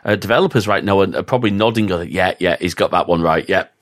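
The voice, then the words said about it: Full-on Northern English accent. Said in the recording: “that was my full on Northern accent there”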